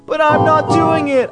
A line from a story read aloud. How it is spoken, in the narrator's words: I screamed